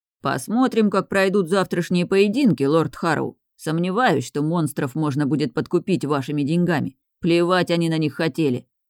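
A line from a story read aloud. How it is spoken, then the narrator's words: Big man declaring. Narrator (Russian): заявил стоявший перед Райаном здоровяк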